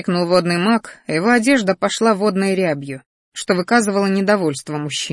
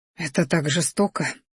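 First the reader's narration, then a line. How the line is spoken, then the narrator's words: Anxious breathy exhale. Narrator (Russian): выдохнула Алиса, тревожно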